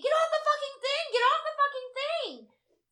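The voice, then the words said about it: Screaming. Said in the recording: “I'm screaming”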